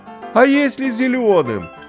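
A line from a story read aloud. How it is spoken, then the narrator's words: Shouted. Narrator (Russian): крикнул Стасик Иващенко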